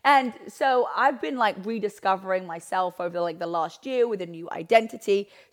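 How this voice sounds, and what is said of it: Hoarse, croaky voice. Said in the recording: “You can probably hear by my voice. You're like, ... sounds like a frog.”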